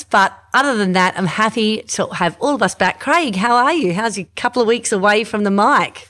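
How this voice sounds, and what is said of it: Stuffy, congested voice. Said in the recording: “I'm a bit stuffy, actually. I've got a cold”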